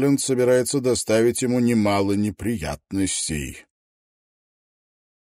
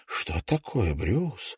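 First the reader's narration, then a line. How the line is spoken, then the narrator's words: Whisper. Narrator (Russian): прошептала она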